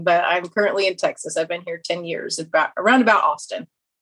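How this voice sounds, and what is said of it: American Kansas twang accent. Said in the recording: “you're not Scottish with an accent like that ... I have the nice Kansas twang”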